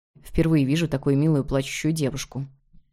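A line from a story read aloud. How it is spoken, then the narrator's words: Quiet whisper. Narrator (Russian): тихо прошептал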